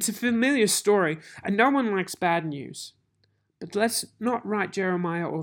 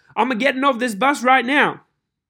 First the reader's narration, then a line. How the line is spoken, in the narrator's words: Quick as a flash, Dad shouts